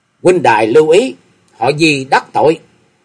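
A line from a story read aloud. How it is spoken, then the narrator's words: Stern shout. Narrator (Vietnamese): Thế Hoàng ... nghiêm giọng quát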